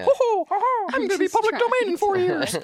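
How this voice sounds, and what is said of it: Mickey Mouse cartoon voice impression. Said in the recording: “best Mickey Mouse impression ... Very self-aware Mickey Mouse”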